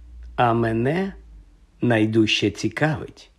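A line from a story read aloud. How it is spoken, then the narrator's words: Gentle speech. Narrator (Ukrainian): лагідно промовив Дамблдор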